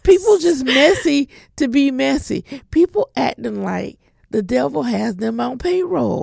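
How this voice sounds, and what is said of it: Southern American accent. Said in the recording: “my southern accent is already out”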